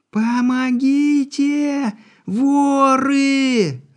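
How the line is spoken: Sudden scream, young woman. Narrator (Russian): Вдруг ни с того ни с сего закричала девушка

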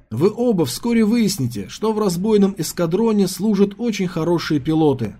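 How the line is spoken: Plain. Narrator (Russian): сказал он

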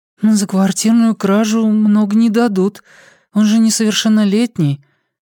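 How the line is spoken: Uncertain. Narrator (Russian): неуверенно сказала Лиана

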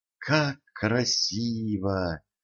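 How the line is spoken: Princess's admiring whisper. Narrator (Russian): восхищенно прошептала принцесса

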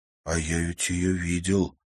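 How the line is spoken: Quiet. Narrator (Russian): тихо произнес Тимофей

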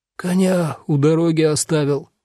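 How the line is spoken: Hoarse wheeze. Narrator (Russian): просипел

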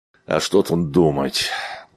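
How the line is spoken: Grumbled. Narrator (Russian): буркнул Айвс

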